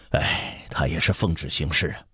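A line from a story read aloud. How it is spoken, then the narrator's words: Sighing. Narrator (Chinese): 摇头叹息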